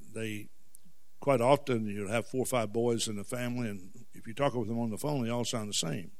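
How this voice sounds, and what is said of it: Southern US accent. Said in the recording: “my southern accent ... occasionally people will say something to me about my accent”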